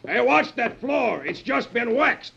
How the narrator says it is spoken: The sergeant yells

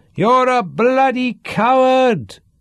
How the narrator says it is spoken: howled Sean

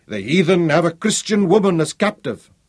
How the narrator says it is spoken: Hendrik Potgieter, that doughty trekker and kaffer fighter, stood up in the pulpit and thundered

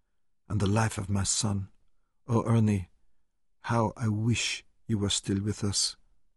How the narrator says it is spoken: she whispered

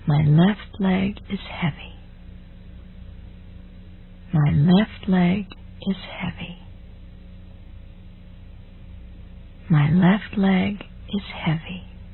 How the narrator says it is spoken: repeat quietly to yourself

